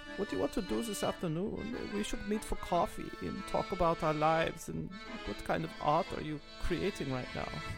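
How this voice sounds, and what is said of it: Laid-back put-on German accent. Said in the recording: “your I don't care German ... That one's like sort of laid back”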